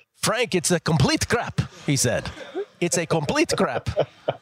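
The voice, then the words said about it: Put-on Serbian accent. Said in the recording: “that Russian accent ... That the Serbian accent. ... Serbian, yeah.”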